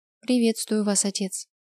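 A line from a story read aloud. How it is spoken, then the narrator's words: Calm. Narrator (Russian): спокойно произнесла Ева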